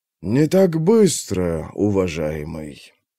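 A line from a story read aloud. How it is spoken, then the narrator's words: Drawled with a smirk. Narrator (Russian): протянул, и его губы скривились в невольной усмешке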